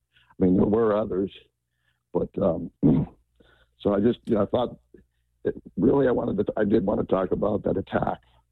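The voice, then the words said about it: Strained, fading voice. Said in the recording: “I'm losing my voice here.”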